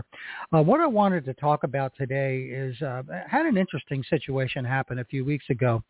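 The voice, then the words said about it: Congested, sniffly voice. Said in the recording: “my voice sounds a little funny and I'm sniffling, coughing a little bit, that's because I just got over a bout with COVID”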